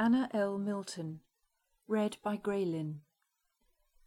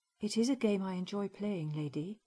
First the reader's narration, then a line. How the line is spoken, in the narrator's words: answered calmly